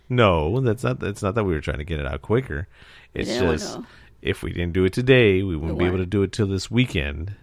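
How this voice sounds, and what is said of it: Sick-sounding voice. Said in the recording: “I was sick. That's why I have this cool voice today ... I can't do my radio voice right now ... because I'm sick”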